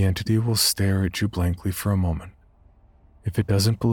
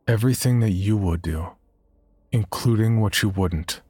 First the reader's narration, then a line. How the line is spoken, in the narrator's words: you must very firmly reply